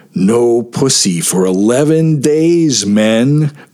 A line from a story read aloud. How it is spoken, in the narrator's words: groaned Kirby